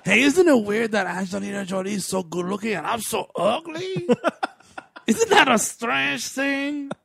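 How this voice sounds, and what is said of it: Ridiculous put-on foreign accent. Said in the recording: “I'm going to use this ridiculous accent ... Am I from Paraguay? Am I from France?”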